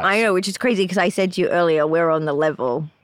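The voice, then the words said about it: Non-American accent, Steve Irwin-like. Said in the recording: “you have a different accent ... my accent ... I'm sort of like a Steve Irwin type”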